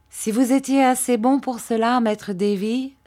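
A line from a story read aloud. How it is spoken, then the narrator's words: Plain. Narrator (French): répondit-il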